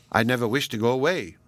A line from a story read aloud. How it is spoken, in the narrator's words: said she